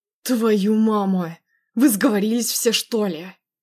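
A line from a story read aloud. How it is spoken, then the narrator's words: Angry growl. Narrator (Russian): Зарычал зло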